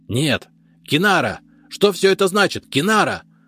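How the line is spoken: Snarling cry. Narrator (Russian): Оскалившись вскрикнул

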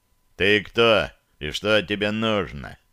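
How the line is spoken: Booming bass question. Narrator (Russian): обиженно вздохнул и раскатистым басом спросил

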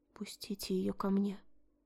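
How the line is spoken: Almost silent whisper. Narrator (Russian): почти беззвучно прошептала

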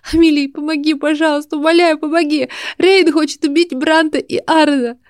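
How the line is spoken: Tearful plea. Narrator (Russian): Сквозь слезы сказала Кина

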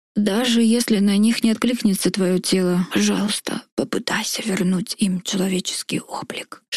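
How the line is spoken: Whispered. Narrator (Russian): шепнул Тиг

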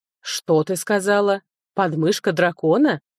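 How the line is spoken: Amused snort. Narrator (Russian): лорд хмыкнул

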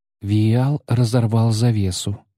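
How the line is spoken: Calm. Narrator (Russian): спокойно проговорила Иза

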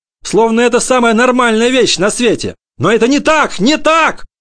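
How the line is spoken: Mother shouting. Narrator (Russian): кричала мама

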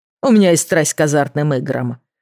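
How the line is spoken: Snorting. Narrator (Russian): фыркнул Кирби

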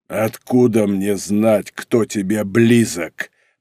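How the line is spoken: Growled. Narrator (Russian): прорычал он

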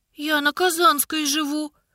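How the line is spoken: Frightened babble. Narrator (Russian): пролепетала, почувствовав, что сердце снова стало колотиться от страха

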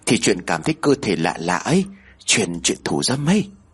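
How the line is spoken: Whisper. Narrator (Vietnamese): Tiên thì thầm

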